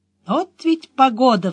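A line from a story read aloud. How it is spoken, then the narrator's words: Sighing. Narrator (Russian): вздохнула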